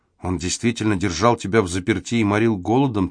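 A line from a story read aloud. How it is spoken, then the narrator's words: Quiet. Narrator (Russian): тихо проговорила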